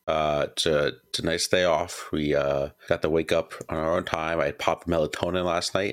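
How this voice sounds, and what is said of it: Hoarse, rough morning voice. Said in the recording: “Your voice is starting to break down a little bit yourself ... I hope you enjoy the morning voice”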